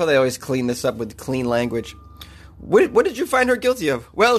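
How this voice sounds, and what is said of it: Usual voice. Nothing is said of it.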